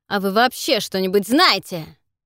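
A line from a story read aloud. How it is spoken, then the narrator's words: Barking. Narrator (Russian): рявкнул Кейт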